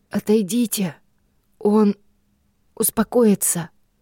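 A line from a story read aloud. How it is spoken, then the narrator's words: Breathy exhale. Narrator (Russian): выдохнул Рой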